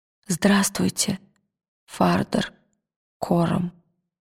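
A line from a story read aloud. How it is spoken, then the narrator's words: Quiet. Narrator (Russian): тихо сказал он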